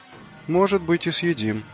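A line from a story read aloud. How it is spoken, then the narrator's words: Uncertain reply. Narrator (Russian): неуверенно ответил Джим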